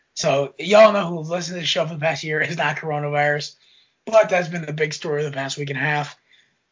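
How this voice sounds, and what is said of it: Congested, stuffy voice. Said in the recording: “You can tell by my voice, I am dealing with my usual yearly allergies”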